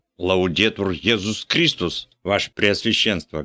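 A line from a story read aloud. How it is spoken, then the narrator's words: Priest barking loudly. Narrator (Russian): гаркнул патер Йошт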